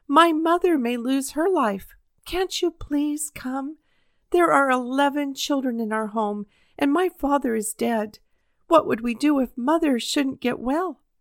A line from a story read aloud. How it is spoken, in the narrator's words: cried the boy